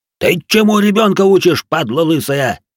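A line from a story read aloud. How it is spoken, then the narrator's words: Roaring. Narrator (Russian): взревел Салих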